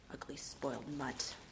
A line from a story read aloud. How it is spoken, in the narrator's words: Simmons mumbles